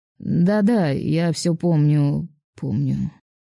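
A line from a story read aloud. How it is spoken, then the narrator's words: Unconvincing muttering. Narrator (Russian): пробормотал он себе под нос совершенно неубедительно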